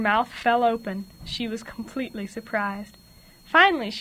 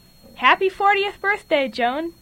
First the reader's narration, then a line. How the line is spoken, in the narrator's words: dozens of people began yelling